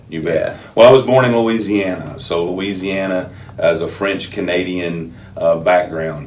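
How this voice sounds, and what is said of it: Louisiana Southern accent. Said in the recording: “people are going to hear your accent... it's pretty dynamic”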